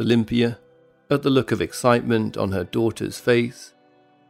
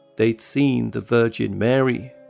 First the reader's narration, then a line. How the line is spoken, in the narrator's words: she said